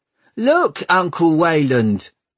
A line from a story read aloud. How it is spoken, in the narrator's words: he heard one of them shout